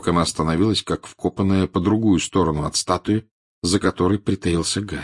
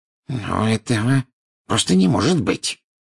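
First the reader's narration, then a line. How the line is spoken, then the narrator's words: Irritated. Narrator (Russian): раздраженно проговорила она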